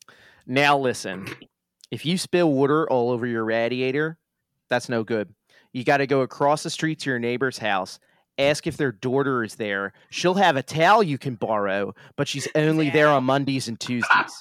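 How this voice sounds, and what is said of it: Exaggerated South Jersey accent. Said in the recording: “my full, like, sicko accent sentence ... That's really good. That's really good.”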